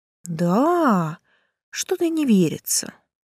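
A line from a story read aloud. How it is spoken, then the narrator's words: Doubtful drawl. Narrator (Russian): с сомнением протянула я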